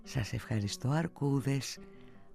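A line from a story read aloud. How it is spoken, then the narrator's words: Soft. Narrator (Greek): είπε σιγανά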